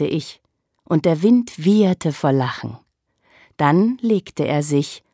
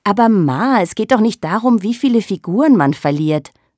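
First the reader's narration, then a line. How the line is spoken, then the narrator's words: Plain. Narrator (German): sagte ich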